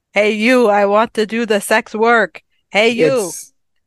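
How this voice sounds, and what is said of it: Flat deadpan delivery, no inflection. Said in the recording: “it's delivered so deadpan ... it's all strung together with no pause between sentences ... No inflection, nothing.”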